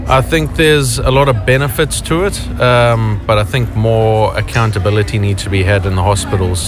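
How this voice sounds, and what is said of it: South African accent. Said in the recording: “Is that a South African accent I detect? ... Yeah, it's a South African accent.”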